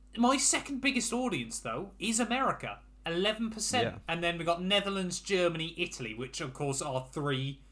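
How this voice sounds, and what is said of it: English accent. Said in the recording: “I'm an English speaker as well ... the accent doesn't help”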